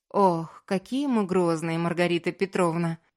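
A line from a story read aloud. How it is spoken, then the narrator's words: Teasing with a chuckle. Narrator (Russian): пожурила Аня со смешком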